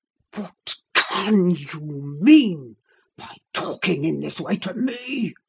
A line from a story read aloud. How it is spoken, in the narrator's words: thundered Heathcliff with savage vehemence